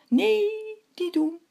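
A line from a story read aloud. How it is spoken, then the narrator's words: Moon calling out. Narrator (Dutch): riep de maan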